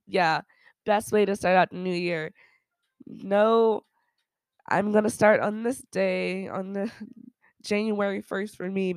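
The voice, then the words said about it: Groggy, sick-sounding voice. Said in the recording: “my voice might sound a little groggy right now. I am currently sick as hell”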